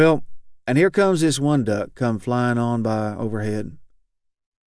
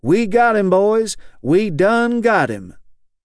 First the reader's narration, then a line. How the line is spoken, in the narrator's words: Someone is crying out in a bad dream